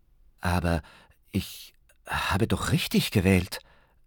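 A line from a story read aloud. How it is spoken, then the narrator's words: Stammering. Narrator (German): stammelte Ben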